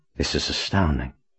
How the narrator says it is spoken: he muttered to himself

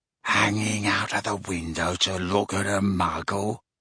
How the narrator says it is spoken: said Gaunt quietly

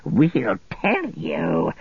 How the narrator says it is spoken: he croaked

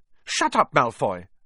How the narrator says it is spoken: snapped Parvati Patil

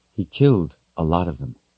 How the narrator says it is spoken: Kaelin said in a quiet voice

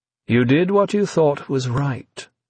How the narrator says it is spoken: V told her, in an almost fatherly, reassuring tone

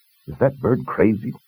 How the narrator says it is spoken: Kaylin asked

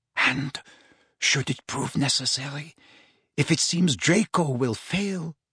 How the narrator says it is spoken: whispered Narcissa

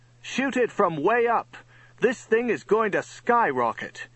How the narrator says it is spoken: Stormalong yelled over to Johnny

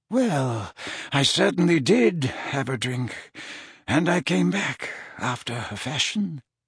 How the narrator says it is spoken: mumbled Dumbledore

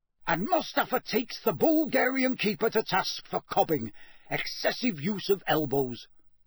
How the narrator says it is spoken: Bagman informed the roaring spectators

